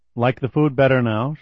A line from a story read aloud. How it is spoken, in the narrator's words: she asked him